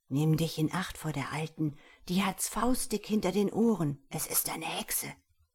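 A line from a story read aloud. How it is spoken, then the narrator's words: Father speaking quietly. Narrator (German): ein Vater sprach er leise zu ihm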